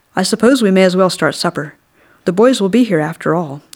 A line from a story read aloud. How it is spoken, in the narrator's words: she said